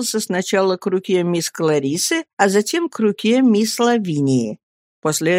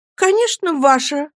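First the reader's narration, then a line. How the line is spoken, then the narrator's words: Exclaimed. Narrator (Russian): воскликнула Дора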